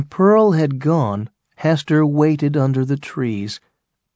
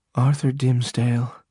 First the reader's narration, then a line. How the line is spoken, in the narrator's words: she said, quietly at first, then louder